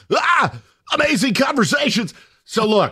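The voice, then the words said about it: Sports announcer voice. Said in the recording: “you gotta do it in the voice ... we're doing the announcer voice?”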